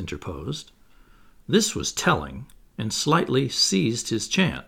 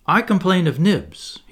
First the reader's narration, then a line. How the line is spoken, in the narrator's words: he cried promptly